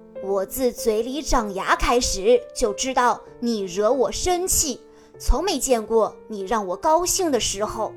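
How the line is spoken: Sneering. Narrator (Chinese): 卡迪冷笑道

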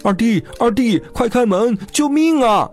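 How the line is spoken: Breathless shouting while running. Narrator (Chinese): 老大 边跑边喊

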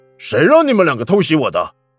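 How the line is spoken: Annoyed. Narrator (Chinese): 罗毅心中一阵恼怒

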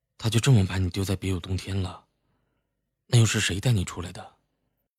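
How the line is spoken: Soft, faintly smiling. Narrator (Chinese): 齐然露出一抹极淡的浅笑，柔声道

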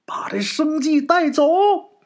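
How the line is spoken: Strange man shouting. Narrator (Chinese): 秦府这怪人就喊呐

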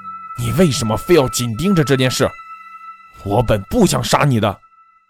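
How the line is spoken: Through gritted teeth. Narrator (Chinese): 他咬牙切齿地说

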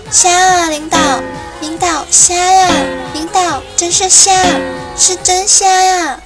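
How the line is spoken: Flustered, loud explanation. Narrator (Chinese): 绿箭也愣了，赶紧大声的解释道

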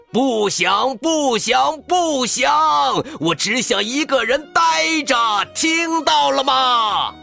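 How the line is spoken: Frantic roar. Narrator (Chinese): 大熊发疯似的大吼

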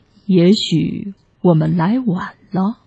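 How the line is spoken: Murmur. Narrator (Chinese): 大熊喃喃地说

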